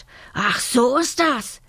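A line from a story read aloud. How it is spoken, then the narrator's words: Tiger's horrified roar. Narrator (German): brüllte der Tiger entsetzt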